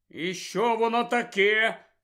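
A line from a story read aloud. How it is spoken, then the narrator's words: Angry question. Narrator (Ukrainian): сердито спитав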